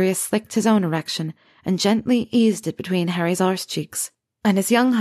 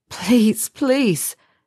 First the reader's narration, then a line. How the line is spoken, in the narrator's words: Harry begged again